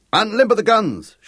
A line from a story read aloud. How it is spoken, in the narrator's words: shouted Castellani